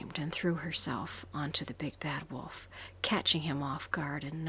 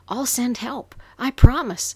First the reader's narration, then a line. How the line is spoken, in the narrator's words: she screamed back at Pink